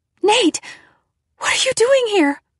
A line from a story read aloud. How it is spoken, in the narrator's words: I cried